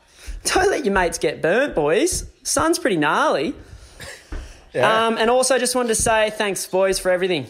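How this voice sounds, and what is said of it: High-pitched male voice. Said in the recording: “long-haired little cunt with the high voice”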